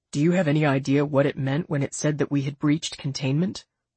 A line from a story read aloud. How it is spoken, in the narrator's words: Lazarin asked